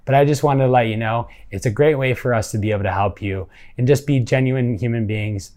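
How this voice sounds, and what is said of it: Emotional, holding back tears. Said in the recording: “I'm starting to get emotional, so I'm trying to keep it together.”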